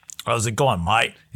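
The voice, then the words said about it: Put-on Australian accent. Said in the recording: “I think you've done Australian too much... it's you do it well. You do it well.”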